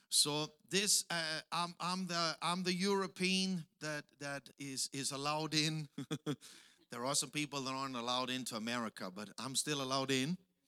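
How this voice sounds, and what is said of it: Heavy Austrian-German accent. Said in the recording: “as you can hear, I have the Arnold Schwarzenegger accent”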